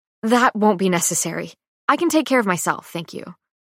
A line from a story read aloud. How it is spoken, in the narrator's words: I quickly say